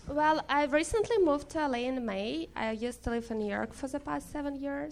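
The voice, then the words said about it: Noticeable non-American accent. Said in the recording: “It's my accent.”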